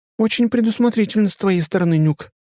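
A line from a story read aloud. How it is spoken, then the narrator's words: Bright, vivid voice. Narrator (Russian): произносит ярко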